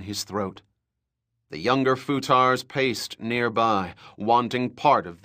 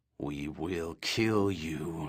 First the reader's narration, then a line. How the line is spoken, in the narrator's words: snarled the honored matre